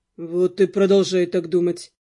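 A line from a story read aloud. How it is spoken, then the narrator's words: Gloomy advice. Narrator (Russian): мрачно посоветовал Дамиан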